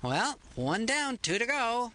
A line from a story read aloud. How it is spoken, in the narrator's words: she brightly said